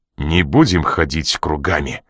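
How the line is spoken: Suddenly sharp voice. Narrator (Russian): проговорил он неожиданно резким голосом

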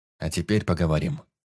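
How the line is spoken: Said coldly. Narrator (Russian): холодно сказал

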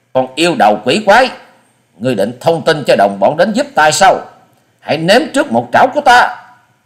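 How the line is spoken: Harsh growled shout. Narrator (Vietnamese): Quái nhân vật thoát người gằn giọng quát lên

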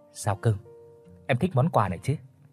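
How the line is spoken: Whisper. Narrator (Vietnamese): Gã thì thầm nói

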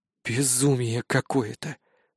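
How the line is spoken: Muttering. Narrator (Russian): пробормотал я

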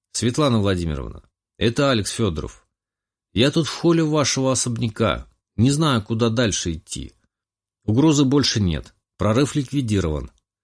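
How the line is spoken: Calm. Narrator (Russian): спокойно произнес

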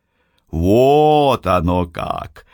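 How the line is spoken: Drawn-out drawl. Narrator (Russian): протянул

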